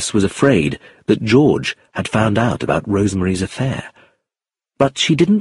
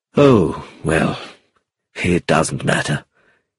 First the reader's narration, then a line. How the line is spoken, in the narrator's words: sighed